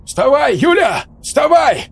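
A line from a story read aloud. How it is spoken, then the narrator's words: Loud shouting. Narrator (Russian): Кричал он ей прямо в лицо, не заботясь о том, насколько громко это звучит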